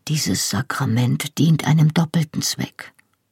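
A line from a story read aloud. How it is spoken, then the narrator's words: Murmured into ear. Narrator (German): murmelte mir Anselm ins Ohr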